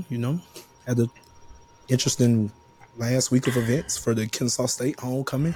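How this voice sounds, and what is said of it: Hoarse, strained voice. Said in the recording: “My voice is gone.”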